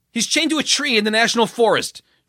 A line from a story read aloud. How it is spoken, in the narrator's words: Trent blurted